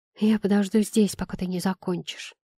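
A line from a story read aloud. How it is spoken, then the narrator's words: Plain. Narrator (Russian): сказала я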